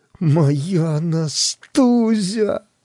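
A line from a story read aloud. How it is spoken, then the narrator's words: Moaning. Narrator (Russian): простонал я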